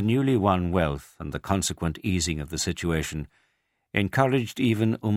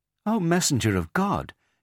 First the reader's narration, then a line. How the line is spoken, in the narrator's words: she exclaimed